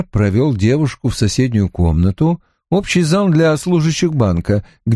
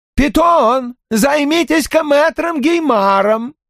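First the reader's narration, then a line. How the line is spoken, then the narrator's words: Shout. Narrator (Russian): крикнул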